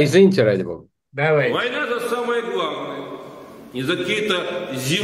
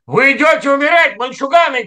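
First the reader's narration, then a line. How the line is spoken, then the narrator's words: Warrior's shout. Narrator (Russian): крикнул гун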